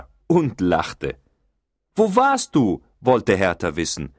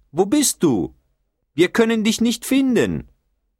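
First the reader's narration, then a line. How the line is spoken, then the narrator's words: Call. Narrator (German): rief Bertha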